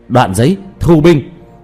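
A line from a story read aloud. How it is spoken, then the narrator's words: Loud call. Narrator (Vietnamese): Diệp Thiếu Dương lớn tiếng kêu lên ra bên ngoài cốc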